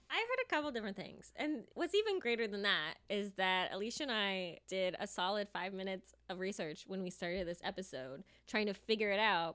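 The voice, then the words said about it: Nasal American accent. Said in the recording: “my American accent, mm-hmm. where I'm very nasally and everything's like an eh sound”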